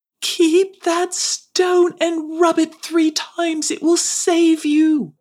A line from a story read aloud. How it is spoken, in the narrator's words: Daru from afar called out after her